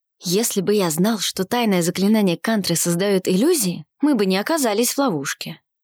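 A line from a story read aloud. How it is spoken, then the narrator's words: Whispered. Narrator (Russian): прошептал Арсений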